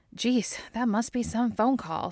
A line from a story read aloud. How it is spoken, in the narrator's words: Scully sighs